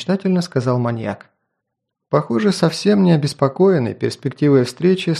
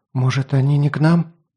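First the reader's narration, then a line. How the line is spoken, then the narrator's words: Dejected, sinking voice. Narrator (Russian): Совсем упавшим голосом предположила девушка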